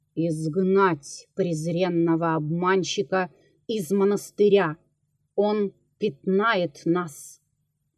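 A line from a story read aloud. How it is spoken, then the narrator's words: Commanding voice. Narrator (Russian): он сказал повелительным голосом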